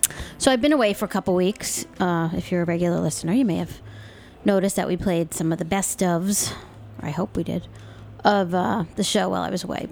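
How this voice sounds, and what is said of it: Slightly hoarse voice. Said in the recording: “I'm a little hoarse tonight”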